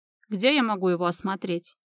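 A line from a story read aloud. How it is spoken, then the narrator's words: Dry inquiry. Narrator (Russian): Интересуется сухо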